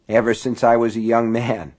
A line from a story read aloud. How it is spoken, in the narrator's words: he had said with a rueful chuckle